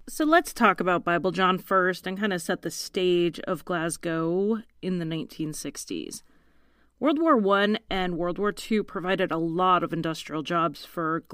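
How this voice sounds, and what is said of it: American accent. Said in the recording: “the American lady who can't talk right ... my unintelligible accent”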